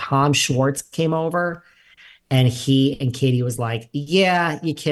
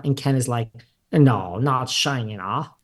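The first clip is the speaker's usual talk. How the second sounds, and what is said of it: Put-on British accent. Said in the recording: “There's my British accent for today.”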